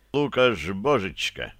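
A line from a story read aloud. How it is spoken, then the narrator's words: Laughing. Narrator (Russian): засмеялся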